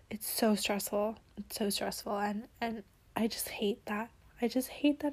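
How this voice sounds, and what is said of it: Dry, worn-out hoarse voice. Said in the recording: “my throat is getting very dry and like I'm getting a lot of cough attacks, which is why my voice is getting shot”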